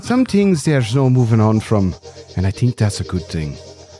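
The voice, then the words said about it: Put-on Irish accent. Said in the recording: “I was going to do an Irish accent.”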